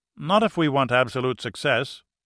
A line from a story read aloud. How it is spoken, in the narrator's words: Holtz replied firmly